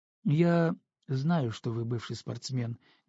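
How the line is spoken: Neutral tone. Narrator (Russian): нейтральным тоном сказал Антон, словно тема спорта вообще была не важна в данном разговоре

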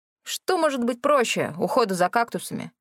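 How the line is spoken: Scoffing snort. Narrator (Russian): фыркнул Рэнди

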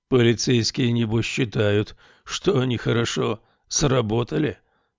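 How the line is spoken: Sighing night owl. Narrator (Russian): вздохнул полуночник

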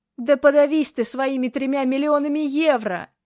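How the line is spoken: Angry yell. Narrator (Russian): заорал, когда ему на голову упала очередная капля

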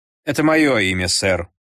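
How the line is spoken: Calm reply. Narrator (Russian): спокойно ответил мой друг

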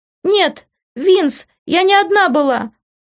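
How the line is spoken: Shouting. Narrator (Russian): закричала она

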